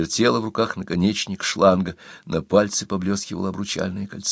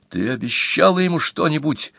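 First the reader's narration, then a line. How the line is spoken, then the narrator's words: Almost shouting, uncontrolled. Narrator (Russian): Он почти кричал, но ничего не мог с собой поделать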